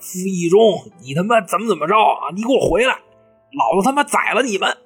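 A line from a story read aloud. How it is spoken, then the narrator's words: Shouting. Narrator (Chinese): 就站在船上喊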